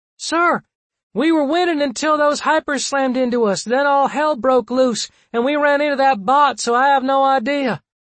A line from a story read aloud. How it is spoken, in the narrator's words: Her reply was tinny as she shouted back